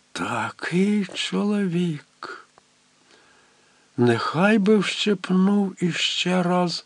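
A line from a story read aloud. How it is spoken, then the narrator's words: Silent inner whisper. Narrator (Ukrainian): Подумки Тереза прошепотіла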